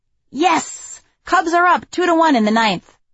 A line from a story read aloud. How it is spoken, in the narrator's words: shout